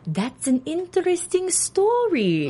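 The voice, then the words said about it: Put-on Russian accent. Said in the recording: “Accent-y. She's a Russian spy.”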